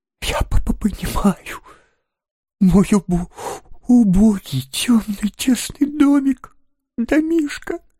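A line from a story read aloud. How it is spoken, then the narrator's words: Forced out through sobs. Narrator (Russian): выдавил он из себя сквозь рыдание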